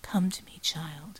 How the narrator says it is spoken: she whispered

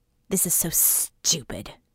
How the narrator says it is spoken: Scope mumbled

